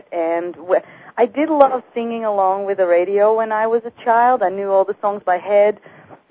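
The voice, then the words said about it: Dutch accent. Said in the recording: “where my accent is from. And I was born in the Netherlands”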